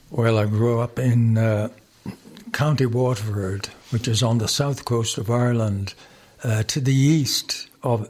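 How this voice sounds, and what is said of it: Strong Irish accent. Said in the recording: “you have a bit of an accent ... Your accent's still pretty strong.”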